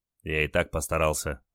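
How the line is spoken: Curt grumble. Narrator (Russian): буркнул Олег

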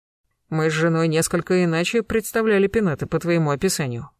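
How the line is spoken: Snorting. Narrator (Russian): хмыкнул Гектор

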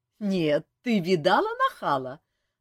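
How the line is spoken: Laughing loudly. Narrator (Russian): расхохоталась Диана

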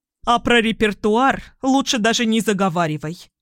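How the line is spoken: Mother's sharp bark. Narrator (Russian): рявкнула мама

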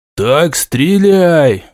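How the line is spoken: Menacing advice from captains. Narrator (Russian): грозно советовали капитаны

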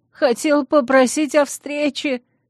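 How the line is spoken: Whining. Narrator (Russian): заскулил репортер

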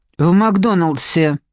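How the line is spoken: Still irritated. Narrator (Russian): ответила Ляля по-прежнему раздраженно

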